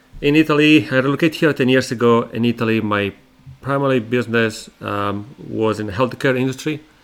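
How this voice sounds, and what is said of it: Italian accent. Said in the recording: “originally I'm from Italy. ... where my accent comes from”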